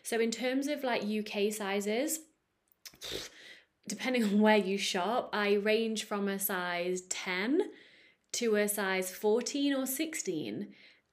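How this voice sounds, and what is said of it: British accent. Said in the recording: “I'm from the UK. I live in the Netherlands, but I'm British. My accent kind of gives that away.”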